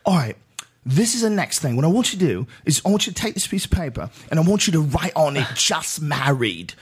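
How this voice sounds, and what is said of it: Strong English accent impression. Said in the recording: “horrible English director, you know, he's got this like a really powerful English accent”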